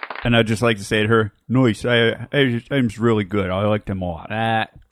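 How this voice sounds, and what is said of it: Put-on Philadelphia accent. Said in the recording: “Is that Philly? ... Yeah, it's a Philly accent.”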